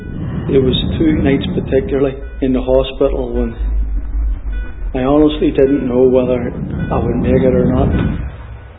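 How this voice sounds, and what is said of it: Northern Irish accent. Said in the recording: “This guy is from Northern Ireland. ... some people might not understand the Northern Irish accent”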